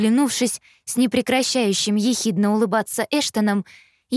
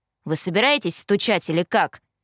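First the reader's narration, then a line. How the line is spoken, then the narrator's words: Grumbling. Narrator (Russian): проворчал Эштон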